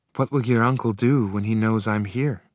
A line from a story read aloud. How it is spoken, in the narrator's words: She asked tightly